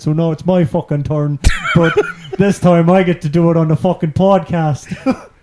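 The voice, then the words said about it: Bad put-on Sligo Irish accent. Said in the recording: “this is the worst accent I've ever done from your town ... this one's from your hometown ... Sligo”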